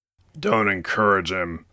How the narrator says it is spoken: Wolfgang grumbled

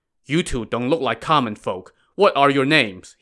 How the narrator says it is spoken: he asked

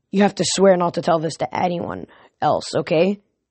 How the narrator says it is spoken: he said

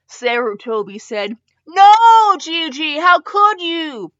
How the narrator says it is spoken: Naruto cried out

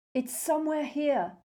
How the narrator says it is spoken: Harry yelled at her

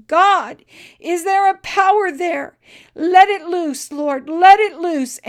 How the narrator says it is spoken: when he was able to control himself, he cried out

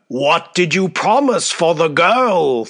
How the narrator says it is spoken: thundered Basavriuk

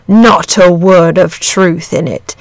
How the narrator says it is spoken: said the dragon solemnly

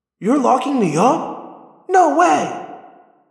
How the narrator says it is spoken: Tobias cried

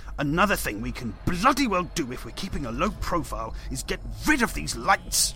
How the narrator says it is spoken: Dawson snarled

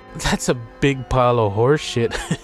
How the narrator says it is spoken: chuckled Billy

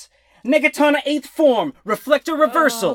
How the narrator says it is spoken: shouts

